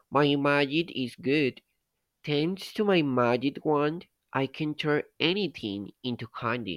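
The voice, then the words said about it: Sweet-voiced witch character. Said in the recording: “the witch said in a sweet voice.”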